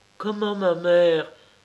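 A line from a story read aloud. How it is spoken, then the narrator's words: Girl's involuntary exclamation. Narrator (French): s'écria comme malgré elle une jeune fille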